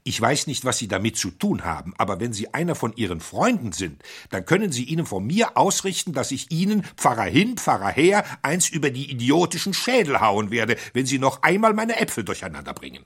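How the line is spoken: Angry, forced out. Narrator (German): Schließlich brachte er wütend die Worte hervor

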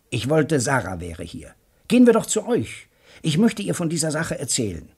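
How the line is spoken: Called out. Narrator (German): rief

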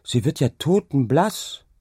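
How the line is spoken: Calling out. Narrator (German): rief sie

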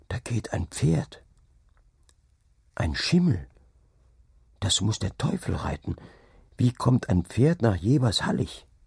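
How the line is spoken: Boy whispering. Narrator (German): flüsterte der Junge

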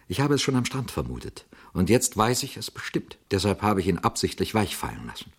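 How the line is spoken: Quiet young man. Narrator (German): sagte der junge Mann leise

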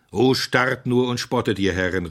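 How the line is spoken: Called out. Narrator (German): rief Simeon

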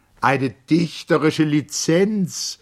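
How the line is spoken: Called out. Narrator (German): rief

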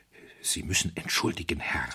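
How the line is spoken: Hoarse whisper. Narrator (German): flüsterte er heiser

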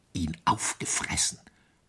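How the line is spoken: Whispered. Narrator (German): flüsterte ihm der Alpdruck zu

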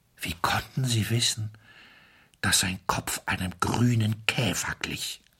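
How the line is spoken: Weak voice. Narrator (German): Wilfried fragte mit schwacher Stimme

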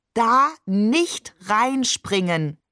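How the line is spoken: Slow, overly distinct. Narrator (German): sagt er überdeutlich und langsam

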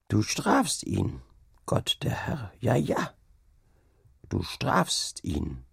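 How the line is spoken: Murmur. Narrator (German): murmelte sie

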